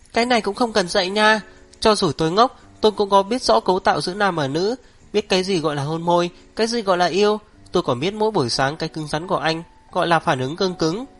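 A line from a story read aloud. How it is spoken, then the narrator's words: Pained yelp, then embarrassed mewling. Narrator (Vietnamese): bị đau kêu lên một tiếng, đỏ mặt meo meo nói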